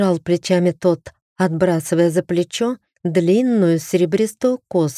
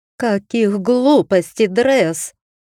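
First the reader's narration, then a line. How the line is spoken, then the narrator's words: Growl again. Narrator (Russian): снова взрычала Айсидора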